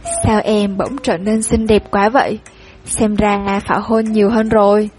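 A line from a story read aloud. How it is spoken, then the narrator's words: Laughing. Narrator (Vietnamese): Cảnh Minh bật cười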